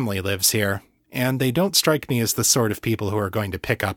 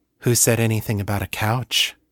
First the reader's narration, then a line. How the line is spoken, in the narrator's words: She purred